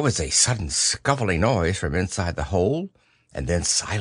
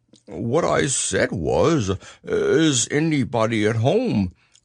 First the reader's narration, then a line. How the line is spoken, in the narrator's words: called out Pooh very loudly